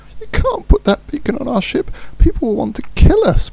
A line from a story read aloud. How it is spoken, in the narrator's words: pleaded Furlow